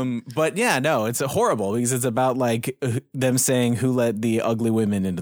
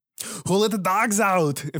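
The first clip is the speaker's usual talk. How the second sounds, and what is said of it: Arnold impression. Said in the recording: “you could do Arnold and not be offensive”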